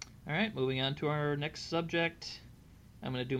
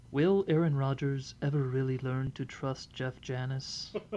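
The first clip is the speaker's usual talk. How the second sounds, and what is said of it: Soap opera announcer voice. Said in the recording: “my best soap opera announcer voice”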